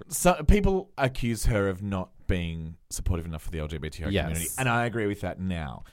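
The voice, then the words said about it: Australian accent. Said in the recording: “An Australian accent. ... My A's sound ... exactly ... The same.”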